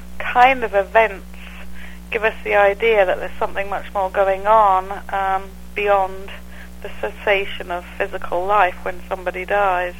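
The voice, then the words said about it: English accent. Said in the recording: “I'm actually from England. ... I'm listening to your accent there”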